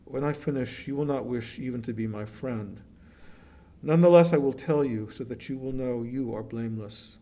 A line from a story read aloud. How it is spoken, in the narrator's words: sighed convulsively, as if he were about to sob, said